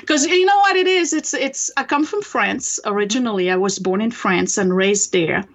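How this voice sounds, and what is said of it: French-accented English. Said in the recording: “you can tell I have an accent. ... I've spent the last 28 years trying to get rid of it. ... people will still hear the accent. It just will never go away.”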